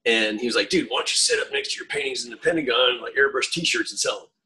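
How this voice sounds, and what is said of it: Rural Southern US accent. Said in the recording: “I don't know if you can tell by that accent, but I come from a redneck area in Florida.”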